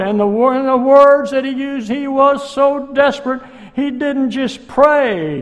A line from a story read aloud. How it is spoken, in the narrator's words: he cried